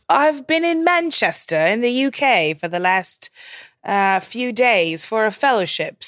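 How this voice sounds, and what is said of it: Bad put-on English accent. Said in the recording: “I should probably stop my terrible accent now ... it's pretty awful ... That was a pretty bad accent”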